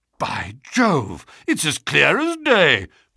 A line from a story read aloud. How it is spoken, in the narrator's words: cried the Colonel